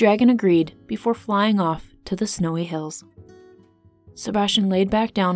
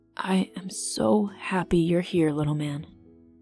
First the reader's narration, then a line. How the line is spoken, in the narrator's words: Seb whispered